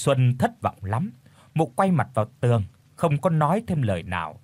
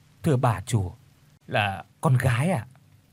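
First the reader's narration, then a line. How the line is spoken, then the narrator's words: Soft reply. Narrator (Vietnamese): Bà Tư khẽ đáp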